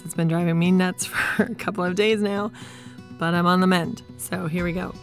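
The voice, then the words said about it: Voice rough from a cold. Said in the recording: “I'm getting over a cold and so my voice is a little bit crazy”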